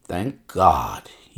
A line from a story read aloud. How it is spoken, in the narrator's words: he muttered